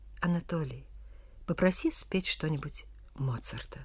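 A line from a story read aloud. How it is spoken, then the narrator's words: Quiet address. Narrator (Russian): тихо обратился к брату последний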